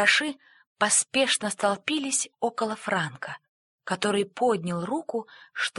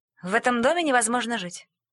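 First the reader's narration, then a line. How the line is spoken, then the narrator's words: Grumbling mouse. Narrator (Russian): проворчала мышь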